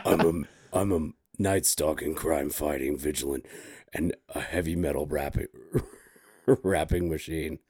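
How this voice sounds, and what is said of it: Dark gravelly Batman voice. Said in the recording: “your voice is dark ... That was a really good Batman.”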